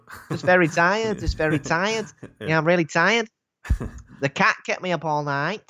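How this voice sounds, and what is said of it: Put-on northern English accent. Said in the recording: “Are you from Manchester? That's a nice northern accent.”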